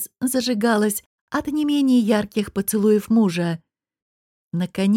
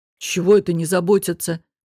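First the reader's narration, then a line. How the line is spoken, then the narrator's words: Grumbling. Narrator (Russian): проворчал Кахир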